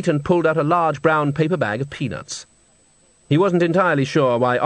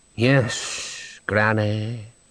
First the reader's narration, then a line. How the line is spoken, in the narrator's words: moaned Gribo